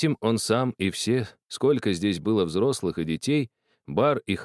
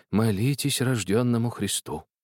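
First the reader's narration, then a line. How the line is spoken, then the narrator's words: Old man's sighing whisper. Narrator (Russian): Старик тоже вздохнул и с таким же шепотом сказал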